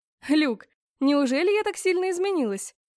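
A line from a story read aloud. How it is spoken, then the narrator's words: Cheerful snort. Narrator (Russian): Хмыкнула весело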